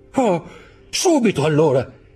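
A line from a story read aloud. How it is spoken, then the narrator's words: Young man exclaiming. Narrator (Italian): esclamò il giovane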